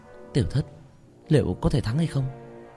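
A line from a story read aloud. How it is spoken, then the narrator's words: Worried quiet voice. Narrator (Vietnamese): Mã Tiểu Tiểu nhíu chặt, nhỏ giọng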